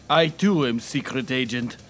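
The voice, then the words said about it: Bad put-on Russian accent. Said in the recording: “talking in Russian in a really bad accent”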